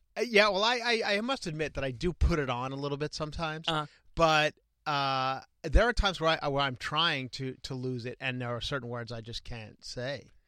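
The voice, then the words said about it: Long Island accent. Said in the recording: “my Long Island accent just won't go away on certain words ... I think it's almost every word.”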